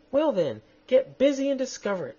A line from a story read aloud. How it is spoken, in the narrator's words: snapped the Queen